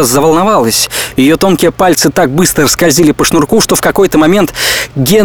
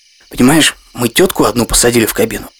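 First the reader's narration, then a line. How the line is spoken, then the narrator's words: Whisper. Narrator (Russian): зашептал Гена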